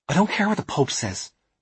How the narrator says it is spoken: snapped Alice

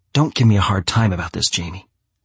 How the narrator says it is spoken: she says in a pissed tone of voice

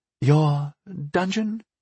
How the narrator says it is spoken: She asked uneasily

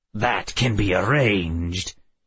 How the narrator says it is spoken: he snarled back

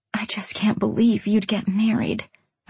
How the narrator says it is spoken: I whispered

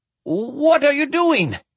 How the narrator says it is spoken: Tangen exclaimed

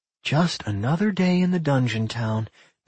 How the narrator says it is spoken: Millie sighed

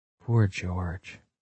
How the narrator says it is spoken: Margot whispered

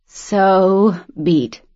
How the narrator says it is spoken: she moaned

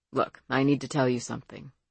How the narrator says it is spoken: Emmett said, and his voice seemed calm but strained, different

